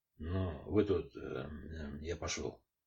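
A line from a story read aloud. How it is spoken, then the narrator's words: Muttered. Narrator (Russian): заместитель командира полка по воспитательной работе буркнул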